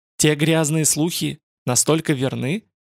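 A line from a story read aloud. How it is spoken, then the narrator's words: Sigh. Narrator (Russian): Рокаш вздохнул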